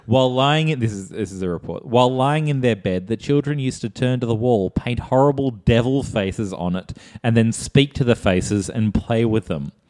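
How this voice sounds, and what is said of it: Put-on accent, slipping. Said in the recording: “I keep losing the accent.”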